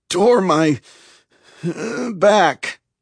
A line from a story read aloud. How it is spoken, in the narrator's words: I wheezed